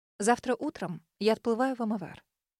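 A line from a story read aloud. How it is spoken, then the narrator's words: Level, even voice. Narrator (Russian): ровным голосом проронила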